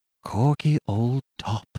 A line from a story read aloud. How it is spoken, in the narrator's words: whispered faintly